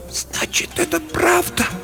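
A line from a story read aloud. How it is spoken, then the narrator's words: Whisper. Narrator (Russian): прошептала она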